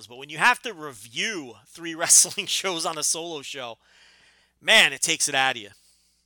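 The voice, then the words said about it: Tired, fading voice. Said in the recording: “I'm out of breath ... I'm losing my voice.”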